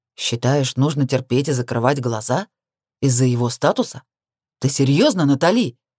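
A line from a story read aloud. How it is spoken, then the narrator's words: Growling. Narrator (Russian): Буквально прорычал Крис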